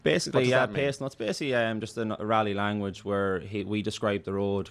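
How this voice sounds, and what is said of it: Irish Sligo accent. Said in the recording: “You sound like Jeremy Clarkson with the Sligo accent.”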